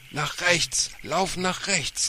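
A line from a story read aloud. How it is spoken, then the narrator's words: Called out by father. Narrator (German): rief ihr Vater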